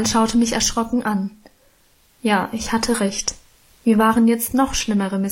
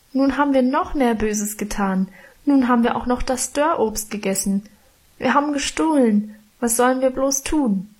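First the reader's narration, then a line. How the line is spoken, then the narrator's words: Wailing. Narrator (German): jammerte ich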